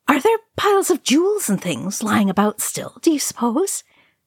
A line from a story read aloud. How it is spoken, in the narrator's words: Merry said eagerly